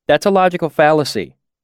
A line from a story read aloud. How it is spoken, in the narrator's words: Sim pointed out eagerly